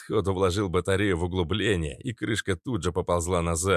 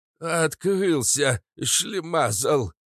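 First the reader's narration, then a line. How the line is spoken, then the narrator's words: Hoarse, sniffling. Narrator (Russian): прохрипел папаша Кат, шмыгнув сосульками под носом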